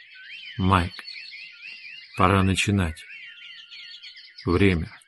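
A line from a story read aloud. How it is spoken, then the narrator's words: Very gentle. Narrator (Russian): Хейген сказал очень мягко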